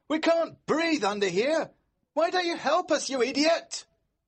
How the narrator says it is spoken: George shout

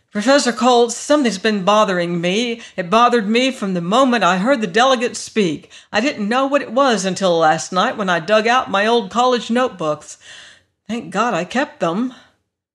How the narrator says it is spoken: Jerry was impatient to get to the point of his visit, and he blurted out

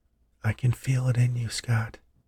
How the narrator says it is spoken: She whispered back

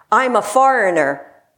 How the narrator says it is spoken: Chikwong yelled in the hard of hearing nun's ear

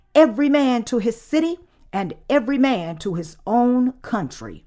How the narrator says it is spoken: a shout went throughout the army saying

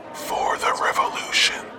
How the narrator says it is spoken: the guard leans into her ear and whispers reassuringly

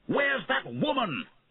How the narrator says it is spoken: He shouted

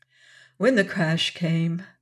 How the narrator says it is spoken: Estelle explained, her voice shaking with a reaction from her fear of a moment ago

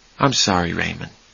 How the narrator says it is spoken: Charlie said softly

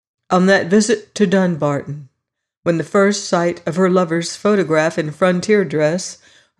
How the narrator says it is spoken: her aunt had exclaimed

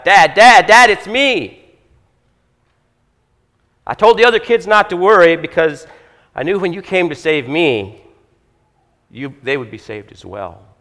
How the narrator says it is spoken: the son shouted back

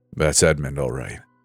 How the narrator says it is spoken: my father said with a grunt

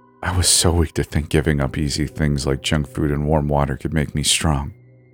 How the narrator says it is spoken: he whispered

